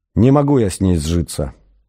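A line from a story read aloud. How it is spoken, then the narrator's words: Gloomy. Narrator (Russian): мрачно вымолвил он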